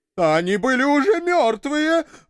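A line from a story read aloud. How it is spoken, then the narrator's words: Terrified wailing, crying. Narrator (Russian): в испуге завопил бородатый, пуская слюни и плача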